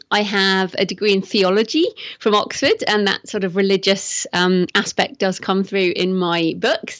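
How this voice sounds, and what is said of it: English accent. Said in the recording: “I'm English, as you can probably tell from my accent”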